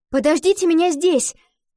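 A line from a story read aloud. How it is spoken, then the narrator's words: Shouted. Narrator (Russian): крикнула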